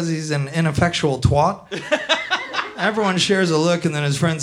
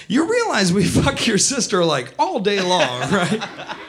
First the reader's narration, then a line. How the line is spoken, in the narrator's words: laughs